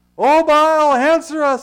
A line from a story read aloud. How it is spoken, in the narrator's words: they shouted